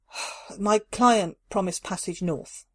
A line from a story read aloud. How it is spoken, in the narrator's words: Carla sighed